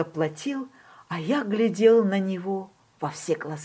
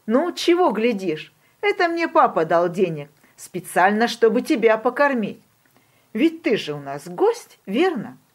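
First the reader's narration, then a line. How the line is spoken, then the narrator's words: Laughing. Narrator (Russian): Он засмеялся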